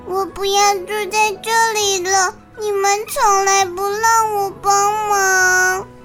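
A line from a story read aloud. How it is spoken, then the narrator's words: Tearful whimpering. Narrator (Chinese): 鸭子呢就哭哭啼啼的说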